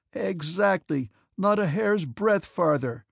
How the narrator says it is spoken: answered Prince Vasily, laughing

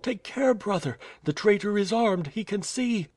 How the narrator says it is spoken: cried the girl

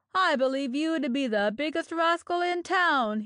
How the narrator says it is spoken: he shouted

